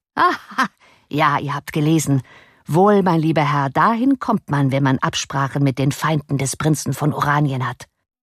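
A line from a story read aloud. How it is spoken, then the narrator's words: Laughing reply. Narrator (German): Lachend erwiderte Gryphus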